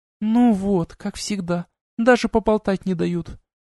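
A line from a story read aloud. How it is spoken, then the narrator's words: Sad sighing mutter. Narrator (Russian): Грустно вздохнув и пробормотав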